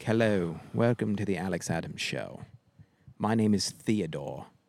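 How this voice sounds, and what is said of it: Weird fancy put-on accent. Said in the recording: “we did like a weird accent ... Theodore sounds like a fancy name”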